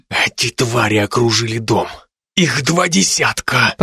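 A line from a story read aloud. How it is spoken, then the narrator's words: Furious hiss. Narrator (Russian): Прошипел он с яростью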